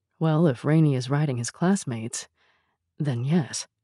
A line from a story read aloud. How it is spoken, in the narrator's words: Rob muttered back